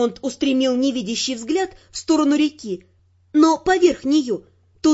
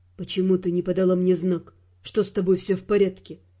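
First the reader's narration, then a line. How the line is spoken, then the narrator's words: Quiet question. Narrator (Russian): тихо спросил он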